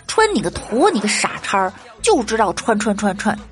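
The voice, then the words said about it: Man's voice, Northeastern Chinese accent. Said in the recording (Chinese): “一口操着东北口音的大老爷们”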